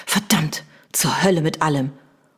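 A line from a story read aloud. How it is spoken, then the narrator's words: Hissing. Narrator (German): Lord Vegas zischte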